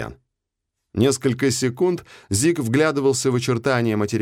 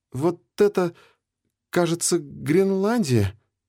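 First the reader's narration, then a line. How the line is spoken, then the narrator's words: Uncertain. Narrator (Russian): неуверенно сказал он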